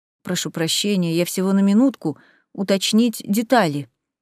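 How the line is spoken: Mumbling. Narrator (Russian): промямлил мистер

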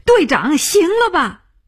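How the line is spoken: Shouting. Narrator (Chinese): 他叫起来

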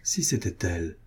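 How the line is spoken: Murmured. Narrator (French): murmura-t-elle

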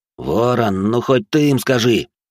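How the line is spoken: Growl. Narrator (Russian): рыкнул

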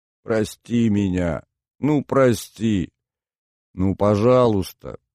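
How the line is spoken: Muffled, choking on sobs. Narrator (Russian): Гостья выталкивала слова глухо и невнятно, давясь рыданиями

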